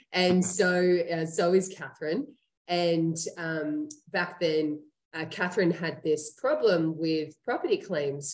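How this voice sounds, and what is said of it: Australian accent. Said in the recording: “that's where I'm from, um, as you can ... hear in my ... accent.”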